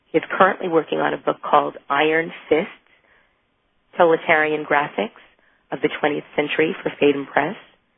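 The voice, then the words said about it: Sick, under-the-weather voice. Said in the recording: “You sound so sick ... I am a little bit under the weather ... it's the sexy voice”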